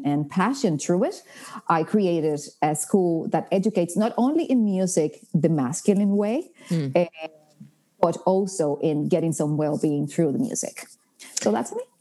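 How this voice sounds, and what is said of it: Latina accent with mixed undertone. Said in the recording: “I love the combo of your accent too... He does not have an Irish accent, but it's... I can hear yours in the middle of your Latina accent.”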